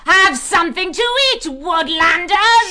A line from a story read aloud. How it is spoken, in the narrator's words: She shrieked